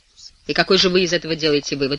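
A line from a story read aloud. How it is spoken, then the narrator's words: Sharp tone. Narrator (Russian): резким тоном спрашивает Блаватский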